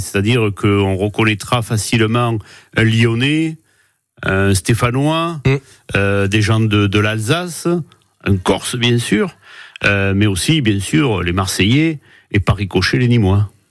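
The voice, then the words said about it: Southern French Nîmes accent. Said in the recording (French): “En langage nîmois ... vous êtes extrêmement fier de votre accent”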